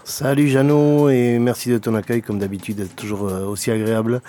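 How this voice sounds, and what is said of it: Slight Gers regional French accent. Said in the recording (French): “le léger petit accent gersois si caractéristique ... Dans le « hé », dans le « je sais pas comment”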